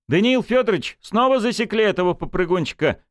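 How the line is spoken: Indignant shout. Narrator (Russian): возмущенно выкрикнул он

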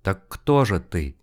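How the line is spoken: Quiet whisper. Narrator (Russian): Тихо, не отрывая от экрана глаз, прошептал Карнаев

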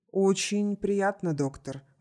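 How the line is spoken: Quick speech. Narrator (Russian): быстро произнес Блеклый

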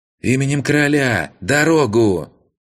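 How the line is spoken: Loud yell. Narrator (Russian): заорал он

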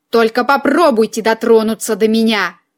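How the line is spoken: Hiss. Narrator (Russian): прошипел вышедший из прострации эльф

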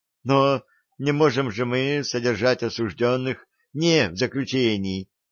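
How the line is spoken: Desperate exclamation. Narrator (Russian): С отчаянием в голосе воскликнул адвокат

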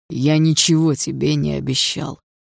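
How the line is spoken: Hoarse reply. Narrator (Russian): хрипло ответил Дима

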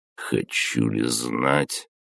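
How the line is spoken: Startled grumble. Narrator (Russian): проворчал вздрогнув от неожиданности

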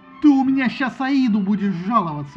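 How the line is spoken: Roaring. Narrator (Russian): взревел Агамемнон

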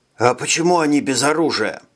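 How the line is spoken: Hushed, respectful question. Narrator (Russian): спросил Виктор шепотом, чтобы не нарушить церемониальной торжественности движения

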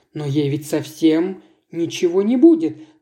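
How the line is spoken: Exclamation. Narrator (Russian): воскликнула Лера

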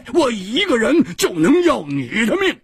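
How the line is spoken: Loud roar. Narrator (Chinese): 胡铁花大声地吼着

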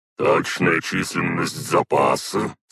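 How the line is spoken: Restrained, suppressing a growl. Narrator (Russian): спросил Максвелл, стараясь не рычать

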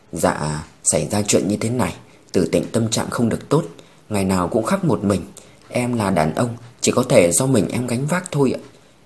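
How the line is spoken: Sighing. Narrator (Vietnamese): Trương Đông Thăng thở dài

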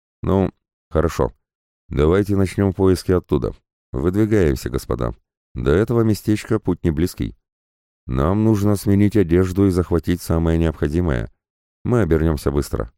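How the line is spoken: Plain. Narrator (Russian): сказал я

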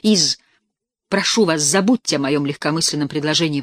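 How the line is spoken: Exclaiming. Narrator (Russian): воскликнул он

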